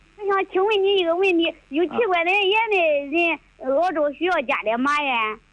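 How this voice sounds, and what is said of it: Southwestern Shandong regional accent. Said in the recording (Chinese): “听口音，你老家是青岛的吗？ ... 我听的像那个鲁西南的口音”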